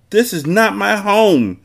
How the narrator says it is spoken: she screamed forcefully

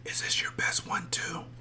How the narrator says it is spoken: whispered

